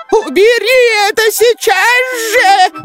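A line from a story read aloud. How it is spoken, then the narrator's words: Shrill squeal. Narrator (Russian): взвизгнула ворчушка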